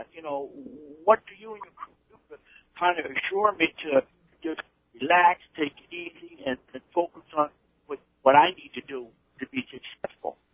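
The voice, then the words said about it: Gloucester, Massachusetts accent. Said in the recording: “It sounds like you could be right off the deck on one of those boats. You got that Gloucester accent going there.”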